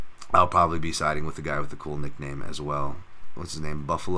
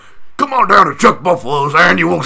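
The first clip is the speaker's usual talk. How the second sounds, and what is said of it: Loud put-on character voice. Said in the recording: “That's a good character voice. ... sorry for your ears”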